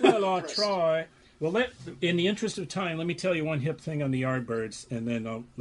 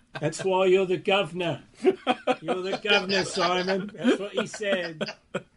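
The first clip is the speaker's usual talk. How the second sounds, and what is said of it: Put-on English accent. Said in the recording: “You do a good English accent.”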